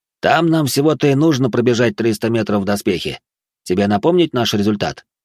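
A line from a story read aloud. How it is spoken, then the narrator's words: Snorting, then adding. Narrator (Russian): Тёма хмыкнул и добавил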